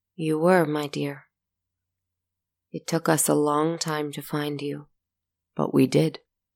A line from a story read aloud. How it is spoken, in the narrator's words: He smiled softly and answered